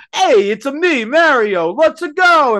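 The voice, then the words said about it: Stereotypical Italian Mario accent. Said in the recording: “stereotypical Mario ... stereotypical fucking Italian accent”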